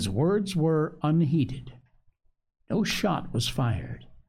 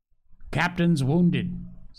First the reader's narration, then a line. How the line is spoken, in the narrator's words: said Mr